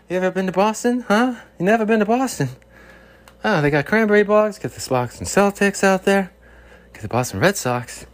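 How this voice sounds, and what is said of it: Bill Burr impression, Boston accent. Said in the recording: “my Bill Burr impression... They say you don't sound like Bill Burr.”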